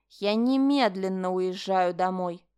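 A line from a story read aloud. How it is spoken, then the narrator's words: Said through gritted teeth. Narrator (Russian): процедила Линда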